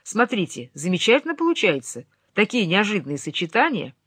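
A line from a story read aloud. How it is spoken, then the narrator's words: Joyful announcement. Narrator (Russian): он радостно объявил мне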